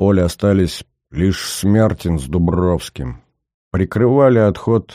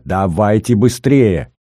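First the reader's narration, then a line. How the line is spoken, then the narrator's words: Shouting from afar. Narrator (Russian): Кричала из леса Лида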